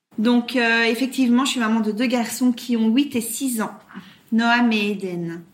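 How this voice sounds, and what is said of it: Slight Belgian French accent. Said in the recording (French): “tu as un petit accent euh, qui vient tout droit de Belgique ... je suis euh, bruxelloise ... les Ardennes belges, d'où mon accent”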